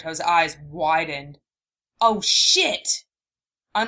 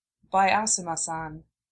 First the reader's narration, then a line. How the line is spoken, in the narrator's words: she said softly